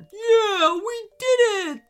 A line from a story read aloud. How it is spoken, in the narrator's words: squealed Scruffy with delight